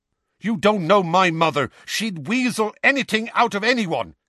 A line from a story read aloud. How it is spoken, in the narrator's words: Seamus snapped at him